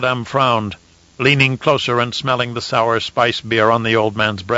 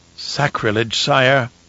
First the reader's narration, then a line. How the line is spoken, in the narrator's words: Fenring murmured